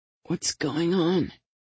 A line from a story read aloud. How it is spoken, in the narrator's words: Angela asked in a weak, hoarse voice